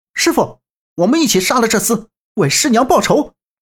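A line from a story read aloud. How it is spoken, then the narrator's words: Shouting. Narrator (Chinese): 杨兴业喊道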